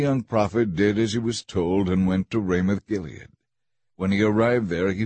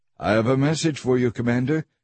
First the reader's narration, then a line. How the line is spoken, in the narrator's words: he said